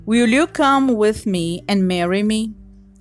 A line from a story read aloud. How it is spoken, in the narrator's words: he asked